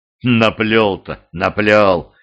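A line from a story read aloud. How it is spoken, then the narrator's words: Scoffing, guest. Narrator (Russian): хмыкнув, покачал головой гость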